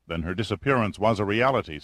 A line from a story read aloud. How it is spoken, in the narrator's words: said Pitt